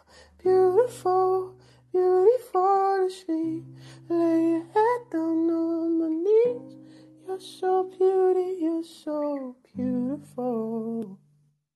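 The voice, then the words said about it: Singing in falsetto. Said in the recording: “I love your falsetto. That is amazing.”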